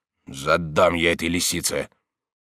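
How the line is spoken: Bad-tempered grumble. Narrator (Russian): будучи в плохом настроении, ворчал

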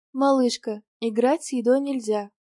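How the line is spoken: Affectionate, smiling. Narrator (Russian): ласково улыбнулась

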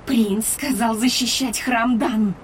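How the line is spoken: Declaring. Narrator (Russian): заявила Андарна

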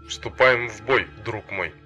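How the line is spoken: Through gritted teeth. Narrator (Russian): сказал он сквозь зубы

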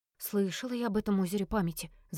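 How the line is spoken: Whispering. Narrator (Russian): зашептала Ирда

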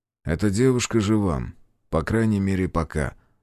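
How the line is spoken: Even voice. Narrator (Russian): сказал Питер ровным голосом

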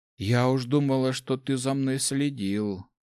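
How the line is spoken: Sighing. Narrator (Russian): вздохнула Улья

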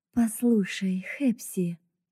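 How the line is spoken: Soft beginning. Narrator (Russian): мягко начала

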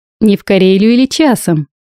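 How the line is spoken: Laughing. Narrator (Russian): рассмеялся Глеб

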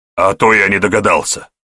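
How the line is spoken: Snorting. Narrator (Russian): фыркнул Илья

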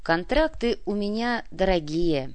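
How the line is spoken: Slow drawl. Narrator (Russian): медленно протянул наемник

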